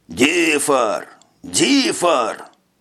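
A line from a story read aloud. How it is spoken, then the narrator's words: Thunderous roar. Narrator (Russian): Громоподобно рыкнул Жак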